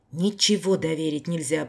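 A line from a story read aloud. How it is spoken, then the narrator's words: Grumbled. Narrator (Russian): пробурчал он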